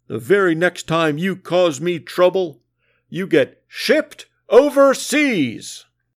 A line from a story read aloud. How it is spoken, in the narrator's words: the Sarge bellowed